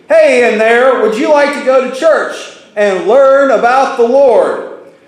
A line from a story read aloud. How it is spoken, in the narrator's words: ask him one more time, this time putting his face up against the centipede's house and shouting